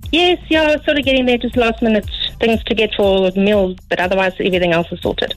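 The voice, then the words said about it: South African accent. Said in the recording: “From South Africa. ... Ah, that's the accent.”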